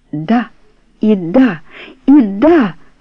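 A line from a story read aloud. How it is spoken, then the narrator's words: Tearful emotional exclamation. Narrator (Russian): воскликнул с влажными блестящими глазами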